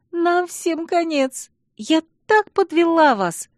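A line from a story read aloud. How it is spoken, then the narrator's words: Sobbing. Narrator (Russian): всхлипывала подруга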